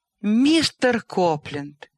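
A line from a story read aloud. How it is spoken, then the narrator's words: Horrified, formal exclamation. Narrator (Russian): воскликнула Селия, от ужаса переходя на официальный тон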